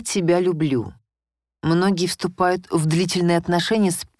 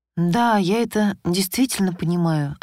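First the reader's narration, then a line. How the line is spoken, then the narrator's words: Much calmer reply. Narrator (Russian): ответила я уже гораздо более спокойно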